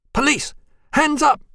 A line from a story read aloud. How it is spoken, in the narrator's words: screamed